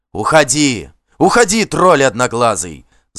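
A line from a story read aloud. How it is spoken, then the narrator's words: Yelled. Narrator (Russian): заорал ему Вигмар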